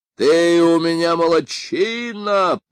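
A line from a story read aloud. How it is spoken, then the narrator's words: Booming from darkness. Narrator (Russian): прогремел Бен Шептун из мрака королевской опочивальни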